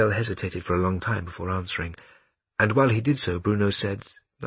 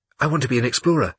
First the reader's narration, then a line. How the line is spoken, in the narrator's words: said Bruno quickly